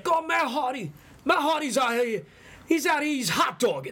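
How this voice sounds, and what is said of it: Imitated New York accent voice. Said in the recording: “the New York accent”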